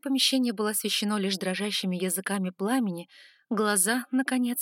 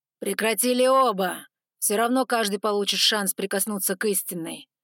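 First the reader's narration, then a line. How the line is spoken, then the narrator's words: Growled. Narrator (Russian): рыкнул черноволосый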